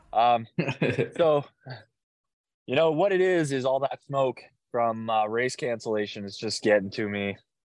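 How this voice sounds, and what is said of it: Hoarse, dry-throated voice. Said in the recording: “there goes my voice. Already losing my voice here. ... it's drying out my throat”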